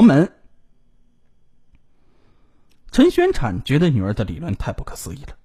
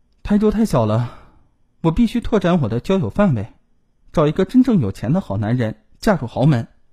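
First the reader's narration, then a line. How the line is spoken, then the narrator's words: Soft sigh. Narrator (Chinese): 他轻叹一口气，对父母说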